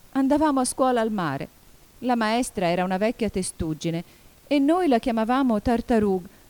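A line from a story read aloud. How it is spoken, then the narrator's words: Calmer but still sobbing. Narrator (Italian): riprese finalmente, un po' più tranquilla, ma sempre singhiozzando di quando in quando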